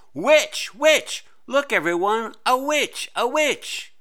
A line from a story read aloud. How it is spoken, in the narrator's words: shrieked to her class